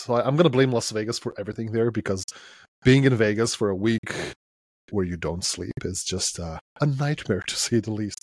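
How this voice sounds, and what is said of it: Slightly hoarse voice. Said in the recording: “My voice is slightly hoarse”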